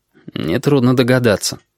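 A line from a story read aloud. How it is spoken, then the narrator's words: Grumbled. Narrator (Russian): буркнул Корнелий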